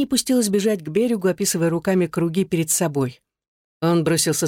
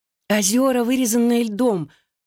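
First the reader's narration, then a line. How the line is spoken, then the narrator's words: Exclamation. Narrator (Russian): воскликнула Винни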